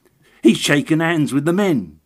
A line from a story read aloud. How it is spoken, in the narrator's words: cried the little agent